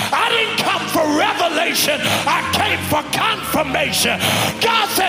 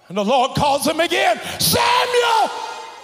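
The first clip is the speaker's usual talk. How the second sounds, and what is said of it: Shouting loudly. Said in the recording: “I'm shouting”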